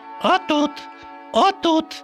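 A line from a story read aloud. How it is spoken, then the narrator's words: Duck squeaking. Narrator (Ukrainian): пищали качки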